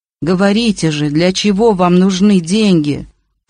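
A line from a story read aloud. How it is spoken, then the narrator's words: Moaning. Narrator (Russian): простонал Кашперов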